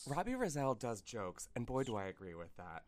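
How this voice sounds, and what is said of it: NPR radio announcer voice. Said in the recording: “put on my NPR voice”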